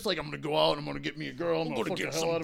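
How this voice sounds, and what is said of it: Pro wrestler style bro voice. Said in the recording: “that impression ... they're all pro wrestlers”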